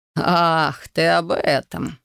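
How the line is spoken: Snorting chuckle. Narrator (Russian): хмыкнул он

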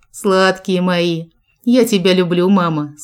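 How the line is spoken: Plain. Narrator (Russian): сказал Джек

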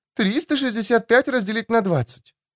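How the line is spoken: Muttering. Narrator (Russian): бормотала Твитч

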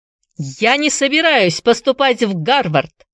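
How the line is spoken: Shouting in English. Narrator (Russian): закричал он по-английски

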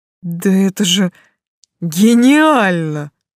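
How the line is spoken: Breathless, awed. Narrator (Russian): выдохнул он, застыв от восхищения

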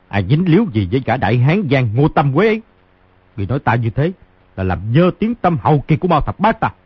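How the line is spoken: Furious shout. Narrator (Vietnamese): Mao Thập Bát đã nổi giận đục đục quát

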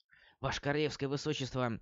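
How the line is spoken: Dry-throated whisper. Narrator (Russian): заговорил было он, но вдруг у него в горле пересохло, и пришлось шептать

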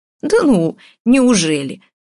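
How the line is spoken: Theatrical villainous laugh. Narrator (Russian): рассмеялся Роман смехом злодея из водевиля

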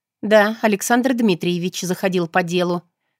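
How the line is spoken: Dry, female. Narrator (Russian): сухо проговорила

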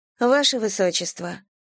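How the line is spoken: Sad, simple. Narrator (Russian): сказала Мэйлин грустно и просто

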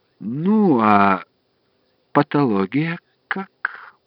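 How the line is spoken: Soft question. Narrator (Russian): он спросил тем же мягким голосом

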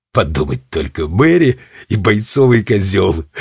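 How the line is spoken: Laughing, old goat. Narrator (Russian): рассмеялся козлиный дед

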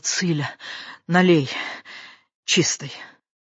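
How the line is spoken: Strained, suppressing a cough. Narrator (Russian): пытаясь унять бушующий кашель в груди, выдавила

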